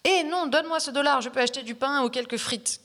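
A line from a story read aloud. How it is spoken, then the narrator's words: Crowd shouting. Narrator (French): criaient des personnes dans le public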